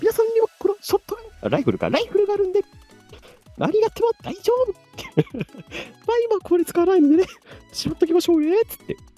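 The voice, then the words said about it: Mickey Mouse-like character voice. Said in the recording (Japanese): “ミッキーマウスのモノマネや”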